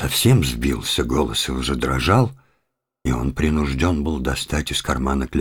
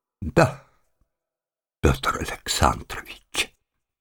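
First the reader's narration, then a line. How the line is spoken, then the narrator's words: Through tears. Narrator (Russian): сказал он сквозь слезы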